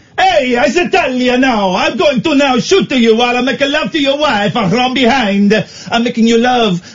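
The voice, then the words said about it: Put-on Italian accent. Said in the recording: “Do Italian. ... the accent”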